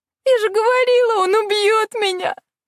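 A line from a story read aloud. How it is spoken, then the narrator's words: Sobbing girl. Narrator (Russian): всхлипнула девчонка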